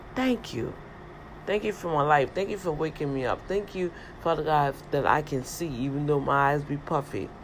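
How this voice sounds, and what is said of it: Hoarse, froggy just-woke-up voice. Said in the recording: “As you hear, I'm still, I got to get my warm tea. I haven't had no coffee, no tea or anything... So that's why my voice is so froggy.”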